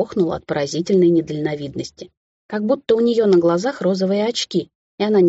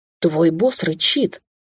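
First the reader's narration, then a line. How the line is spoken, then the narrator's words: Indignant hiss. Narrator (Russian): возмущенно зашипела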